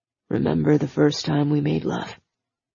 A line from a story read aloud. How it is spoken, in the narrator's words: he lowered his mouth to her ear and said, in a deep voice that had thrill bumps running all across her skin